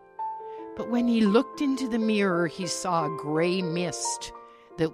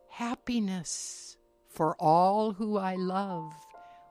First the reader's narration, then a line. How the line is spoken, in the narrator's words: whispered his reflection